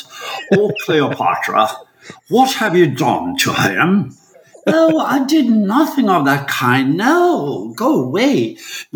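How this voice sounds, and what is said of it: Put-on English accent. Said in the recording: “you have English accents”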